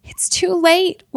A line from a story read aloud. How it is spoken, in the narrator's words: wailed George